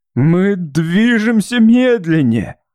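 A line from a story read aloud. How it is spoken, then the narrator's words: Hoarse, terrified. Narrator (Russian): голос Уинтона был хрипом ужаса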